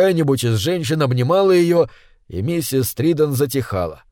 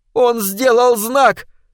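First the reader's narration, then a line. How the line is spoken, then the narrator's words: Shrill squeal, mother. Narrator (Russian): взвизгивала миссис Триден, женщина-мать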